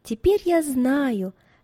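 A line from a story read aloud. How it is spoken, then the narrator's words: Joyful voice. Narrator (Russian): произнесла Екатерина радостным голосом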